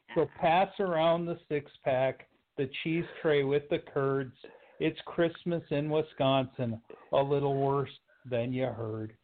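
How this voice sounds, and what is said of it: Put-on accent reading a poem. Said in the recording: “The accent's perfect.”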